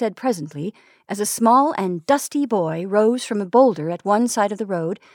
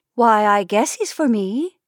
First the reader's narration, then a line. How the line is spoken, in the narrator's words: said Sally, in her first natural tone she had used that afternoon